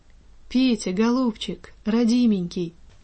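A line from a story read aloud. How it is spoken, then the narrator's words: Weak quavering voice. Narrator (Russian): проговорила она слабым дребезжащим голосом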